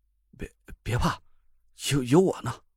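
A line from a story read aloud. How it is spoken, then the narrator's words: Trembling voice. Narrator (Chinese): 张俊轩 声音却在抖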